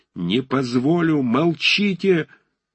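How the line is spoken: Piercing anguished shout. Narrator (Russian): закричал он пронзительным страдальческим голосом

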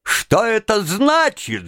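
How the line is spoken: Shouting. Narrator (Russian): закричал

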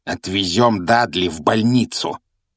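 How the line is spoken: Growling. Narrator (Russian): прорычал дядя Вернон

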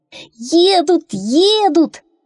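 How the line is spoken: Crowd shouting. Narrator (Russian): кричали они

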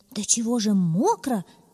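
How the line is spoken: Rabbit's exclamation. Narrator (Russian): воскликнул кролик

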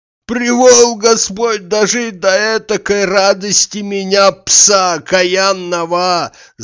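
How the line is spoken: Wailing, half crying, half laughing. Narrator (Russian): завопил, не то плача, не то смеясь

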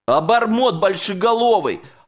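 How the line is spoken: Yelling. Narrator (Russian): орал я на Алешку

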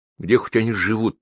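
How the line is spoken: Quiet question. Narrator (Russian): негромко спросила меня мама

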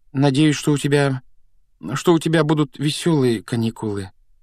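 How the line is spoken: Uncertain, forced out. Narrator (Russian): неуверенно выдавила Гермиона, явно пораженная нелюбезностью дяди Вернона

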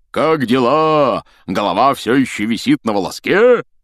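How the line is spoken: Loud guffaw. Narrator (Russian): Он громко хохотнул

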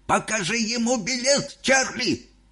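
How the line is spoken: Ecstatic shout. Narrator (Russian): закричал дедушка Джо, в экстазе

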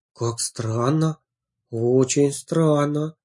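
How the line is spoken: Muttered. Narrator (Russian): пробормотала Самбриана

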